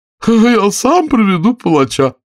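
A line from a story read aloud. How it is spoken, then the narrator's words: Joyful king. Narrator (Russian): сказал радостно король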